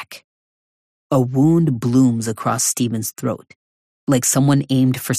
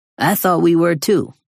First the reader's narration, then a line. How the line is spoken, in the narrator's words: Brother Hutch says